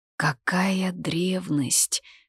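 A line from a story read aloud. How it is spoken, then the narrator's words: Admiring whisper. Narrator (Russian): шепотом восхитилась Лита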